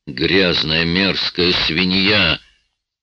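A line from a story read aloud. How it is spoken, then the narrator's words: Animal-like growl. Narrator (Russian): Сэм издал какое-то животное рычание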